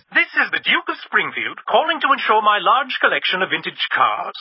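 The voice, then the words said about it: Fake aristocratic accent. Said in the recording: “the fake accent”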